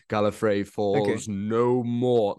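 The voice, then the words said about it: Imitates another person's voice. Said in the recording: “I can't do the voice, but I'm going to try and do the voice.”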